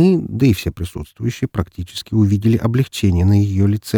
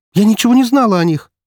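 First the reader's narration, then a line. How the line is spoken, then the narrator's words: Exclaimed. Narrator (Russian): воскликнула Яна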